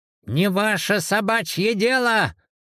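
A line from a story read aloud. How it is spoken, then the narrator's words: Snapping. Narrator (Russian): Огрызнулась Аннушка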